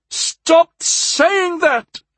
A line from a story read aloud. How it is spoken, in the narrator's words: Kusi howled